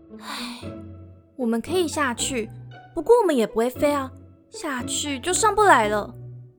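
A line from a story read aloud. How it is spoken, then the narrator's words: Sighing. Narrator (Chinese): 姑姑叹了一口气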